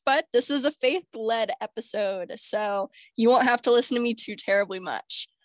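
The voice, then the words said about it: Sick-sounding voice. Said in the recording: “We are still recording in my sick era, so I apologize for my voice”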